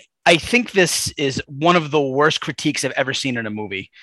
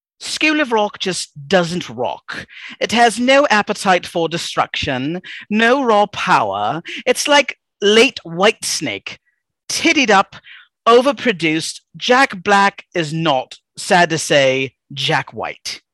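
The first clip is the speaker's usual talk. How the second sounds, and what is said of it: Put-on British accent. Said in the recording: “So she's British. I'll do it in a British accent.”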